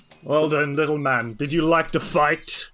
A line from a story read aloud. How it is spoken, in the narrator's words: the big monk grins and smiles and says